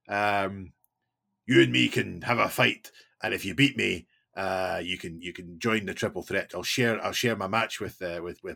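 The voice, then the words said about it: Exaggerated generic Scottish accent, Drew McIntyre. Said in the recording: “That's far too Scottish for Drew McIntyre. He's half American now by the sound of it. ... I was just putting on a generic Scottish accent.”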